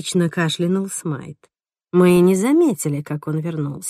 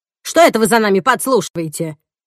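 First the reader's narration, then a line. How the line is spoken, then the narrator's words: Snapped back. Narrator (Russian): огрызнулась Эдна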